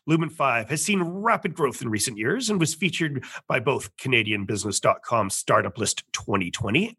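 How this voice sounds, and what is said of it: Polished radio announcer voice. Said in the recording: “what a perfect radio voice ... It's a perfect radio voice”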